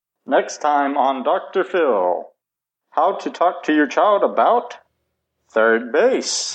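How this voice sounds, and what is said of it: TV announcer voice. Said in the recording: “announcer voice you're doing for this. That's good.”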